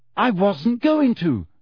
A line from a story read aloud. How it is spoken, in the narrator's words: she shouted